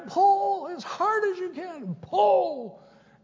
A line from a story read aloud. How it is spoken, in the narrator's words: she yells again